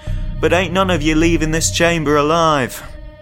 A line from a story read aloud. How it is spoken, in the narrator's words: Kenneth shouted